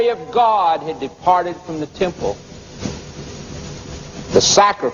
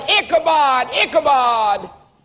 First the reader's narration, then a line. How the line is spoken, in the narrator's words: that priest yelling